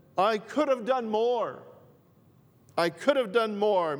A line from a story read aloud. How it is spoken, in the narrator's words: cried his heart out, and he said